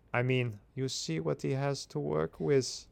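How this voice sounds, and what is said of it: Put-on German accent. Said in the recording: “Can you do a German accent for this one? ... Yeah, nice.”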